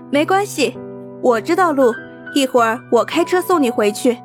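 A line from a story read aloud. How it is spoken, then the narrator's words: Giggling girl. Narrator (Chinese): 一女孩，嬉笑着说道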